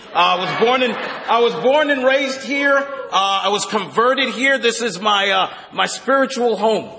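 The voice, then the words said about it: Brooklyn New York accent. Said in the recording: “if you can't tell by my accent, I'm from Brooklyn”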